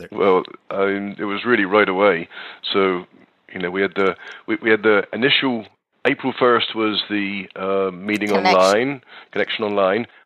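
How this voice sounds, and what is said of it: British accent. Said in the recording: “his accent was so cute ... I'm going to work on my British accent ... don't lose the accent”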